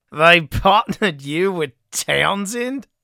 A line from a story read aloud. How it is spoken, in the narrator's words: Campbell barked laughter